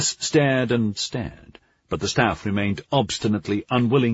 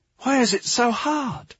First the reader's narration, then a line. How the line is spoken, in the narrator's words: pleaded